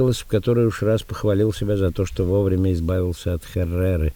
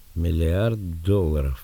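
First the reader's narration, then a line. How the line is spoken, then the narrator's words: Quiet but audible. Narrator (Russian): повторила Лорин тихо, однако так, что все услышали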